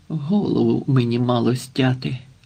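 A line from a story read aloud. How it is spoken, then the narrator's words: Despairing groan. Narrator (Ukrainian): у відчаї простогнав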